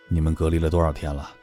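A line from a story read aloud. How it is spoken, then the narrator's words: Middle-aged man asking. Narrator (Chinese): 中年人又接着问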